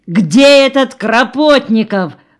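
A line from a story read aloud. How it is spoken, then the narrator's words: Jubilant question. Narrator (Russian): спросила голова ликующим тоном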